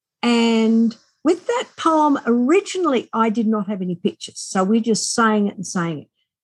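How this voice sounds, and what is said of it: Australian accent. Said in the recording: “as we are Australian, as you most likely hear my accent”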